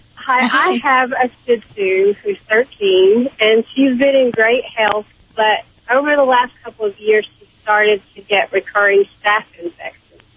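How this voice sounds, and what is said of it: Kentucky accent. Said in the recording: “that Kentucky accent. I love that. I'm a sucker for Kentucky accents.”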